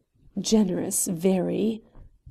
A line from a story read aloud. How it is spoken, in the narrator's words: commented the lawyer in a murmur which was more than audible